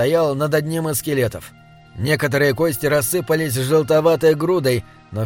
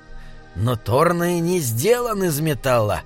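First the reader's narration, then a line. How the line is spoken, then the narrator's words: Grumbling. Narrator (Russian): проворчал Бинабик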